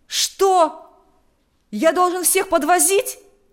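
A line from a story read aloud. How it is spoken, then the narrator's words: Exclaiming. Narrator (Russian): воскликнул поручик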